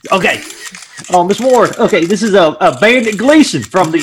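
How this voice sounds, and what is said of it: Inconsistent put-on accent. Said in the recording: “My accent is going in and out.”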